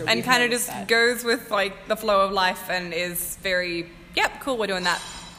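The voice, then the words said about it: Australian accent. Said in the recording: “We have a real great accent.”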